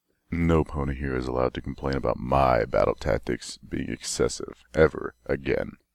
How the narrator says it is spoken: he grumbled

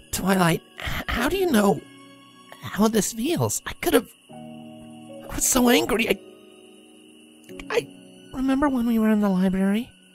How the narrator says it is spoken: The unicorn spoke in something just above a whisper, but her words did not slip on emotions like Dash's

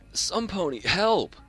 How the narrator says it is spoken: she gave an audible whimper

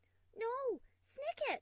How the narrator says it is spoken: Lemon Dreams cried out

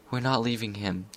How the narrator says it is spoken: she whispered

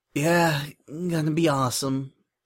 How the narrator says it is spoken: Spike muttered

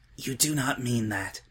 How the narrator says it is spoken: Twilight whispered

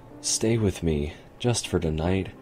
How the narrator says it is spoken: she said quietly

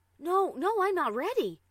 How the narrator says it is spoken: cried out, cursing at her bad luck

